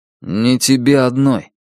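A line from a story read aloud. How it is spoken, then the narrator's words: Soft addition. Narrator (Russian): Джек мягко добавил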